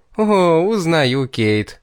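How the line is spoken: Laughing. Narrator (Russian): рассмеялась

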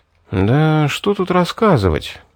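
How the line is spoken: Thoughtful. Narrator (Russian): задумчиво проговорил я

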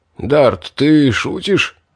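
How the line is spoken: Hoarse wheeze. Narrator (Russian): просипел Нолк

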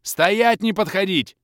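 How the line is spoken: Yelled. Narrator (Russian): я заорал на чуть осмелевших пацанов

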